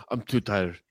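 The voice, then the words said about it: Put-on Russian accent. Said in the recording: “That was good. Impression. It sounded Russian.”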